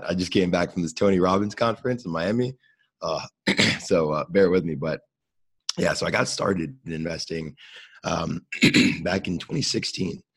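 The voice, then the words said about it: Hoarse, worn-out voice. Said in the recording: “My voice is completely shot. ... Getting worse.”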